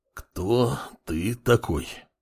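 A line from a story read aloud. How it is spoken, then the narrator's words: Words through clenched teeth. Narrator (Russian): процедил бывший следователь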